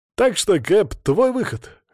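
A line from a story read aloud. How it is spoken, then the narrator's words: Snorting. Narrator (Russian): хмыкнул Шамиль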